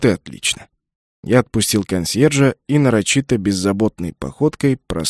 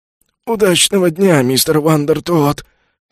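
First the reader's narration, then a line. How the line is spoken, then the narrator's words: Hoarse croak. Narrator (Russian): прохрипел консьерж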